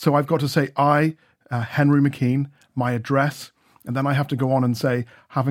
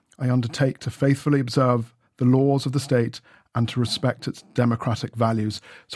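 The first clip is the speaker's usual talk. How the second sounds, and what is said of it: Choked-up, emotional voice. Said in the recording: “Sorry, I'm getting a bit choked up there.”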